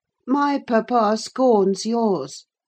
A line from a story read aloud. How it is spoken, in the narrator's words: cried Linton